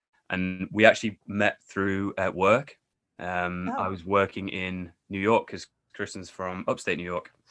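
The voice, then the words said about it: Northern English accent. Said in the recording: “you can tell by my accent that I'm definitely not a native of New York or America ... I'm actually from England, the north of England, a place called York”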